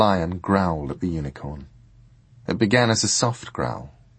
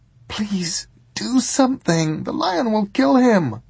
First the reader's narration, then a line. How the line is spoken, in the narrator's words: pleaded the girl urgently